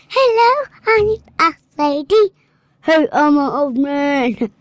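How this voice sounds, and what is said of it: Child doing an old lady voice. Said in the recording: “do your old lady voice.”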